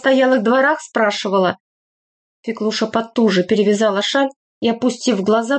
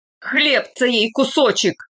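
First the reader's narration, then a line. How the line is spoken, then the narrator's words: Roar. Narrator (Russian): взревел Боровой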